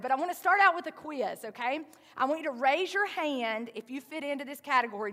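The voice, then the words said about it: Southern American accent. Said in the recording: “my southern accent is going to say hairy sometimes instead of hurry”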